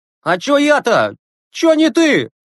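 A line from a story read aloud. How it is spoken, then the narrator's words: Distant shout. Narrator (Russian): крикнул из коридора Загоркин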